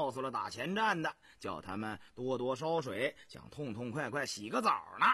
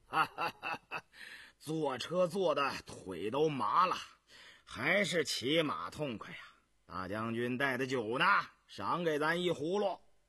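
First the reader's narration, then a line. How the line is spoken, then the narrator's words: Hearty laughter. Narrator (Chinese): 穆香阿 呵呵的笑着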